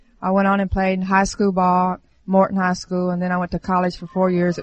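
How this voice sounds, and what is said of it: Southern US accent. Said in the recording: “southern accent all the way”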